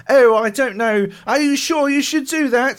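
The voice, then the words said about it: Put-on twee British accent. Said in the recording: “twee British accent”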